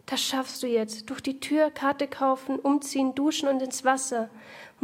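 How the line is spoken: Quiet muttering to herself. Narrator (German): murmelt sie leise vor sich hin

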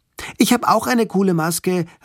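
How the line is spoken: Call out. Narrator (German): rief sie

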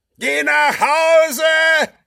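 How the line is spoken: Roaring. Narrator (German): brüllt Wolle

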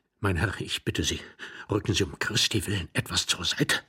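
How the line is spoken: Whispered. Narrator (German): flüsterte Iwan Andrejewitsch

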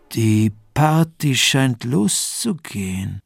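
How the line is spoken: Deliberately slow speech. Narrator (German): sagte betont langsam

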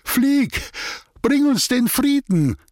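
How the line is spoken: Grandiose solemn call. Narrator (German): rief er mit pathetischem Gestus

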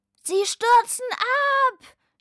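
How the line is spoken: Shouting. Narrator (German): schrie Lukas

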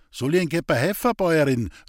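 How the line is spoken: Calling downward. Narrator (German): rief hinunter

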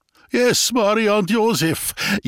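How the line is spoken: Whining. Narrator (German): jammert neben mir der Kasper

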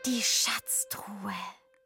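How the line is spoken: Whisper. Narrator (German): flüstert Henriette

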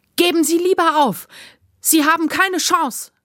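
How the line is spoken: Desperate, defiant shout. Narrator (German): rief Jupp mit dem Mut der Verzweiflung

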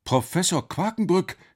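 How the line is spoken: Calling out. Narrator (German): rief Alex

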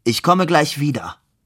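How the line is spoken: Called out. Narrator (German): Labude rief

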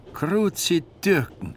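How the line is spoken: Called out. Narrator (German): rief der Mann

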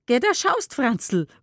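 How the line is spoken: Called out, woman. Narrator (German): ruft sie

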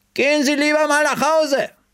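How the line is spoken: Calling out. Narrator (German): rief entgegen

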